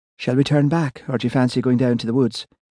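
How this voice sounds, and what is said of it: Lilting Irish accent. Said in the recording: “her Irish accent lilting on the breeze”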